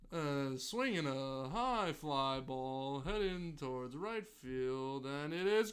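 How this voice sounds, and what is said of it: Imitates a baseball radio announcer. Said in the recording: “this is my impression. This is how John Sterling announces Yankee.”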